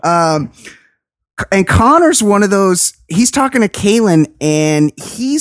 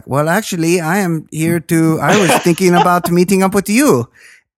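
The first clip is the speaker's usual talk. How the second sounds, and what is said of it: Spot-on Russian accent. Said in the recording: “your accent? ... It's because it was perfectly spot on ... I didn't know ... did Russian”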